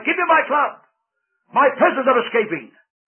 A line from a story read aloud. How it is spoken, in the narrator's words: the giant roared to his wife